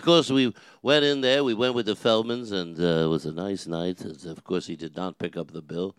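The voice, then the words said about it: Imitates another person's voice. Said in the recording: “I do the voice. It is what I do. ... I do impersonations of Regis, but it's not too good.”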